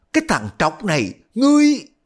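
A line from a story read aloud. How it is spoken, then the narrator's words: Shouting. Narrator (Vietnamese): Y mới la lên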